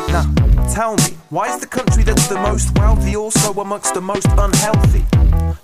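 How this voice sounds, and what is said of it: British accent, rapping. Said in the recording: “you can probably tell where this is going from my accent, or you're thinking, why is this British guy rapping?”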